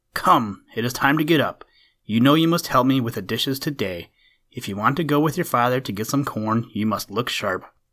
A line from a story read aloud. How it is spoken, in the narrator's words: his mother, who called sharply